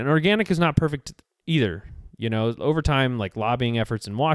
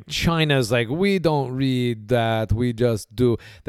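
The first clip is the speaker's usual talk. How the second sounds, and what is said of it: Bad put-on foreign accent. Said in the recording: “terrible impression ... wasn't Chinese at all ... That's Luigi.”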